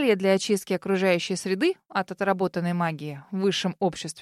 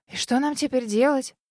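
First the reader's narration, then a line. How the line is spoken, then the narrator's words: Sighing. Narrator (Russian): Вздохнув, Кася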